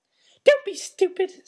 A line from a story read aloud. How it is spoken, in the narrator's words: snapped Aunt Petunia